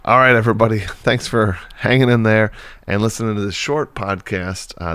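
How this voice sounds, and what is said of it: Voice slightly congested from cold. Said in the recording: “I have a bit of a cold, so my I might not sound the same as I always sound”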